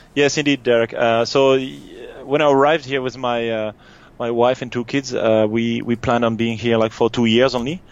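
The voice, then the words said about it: French accent. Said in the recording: “you're French. If people can't pick up the accent”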